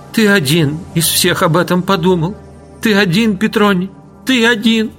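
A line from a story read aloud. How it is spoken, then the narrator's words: Sobbing. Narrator (Russian): припав головою к его груди, стал всхлипывая повторять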